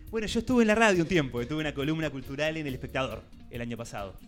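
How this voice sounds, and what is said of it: Radio announcer voice. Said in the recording (Spanish): “tiene voz de locutor”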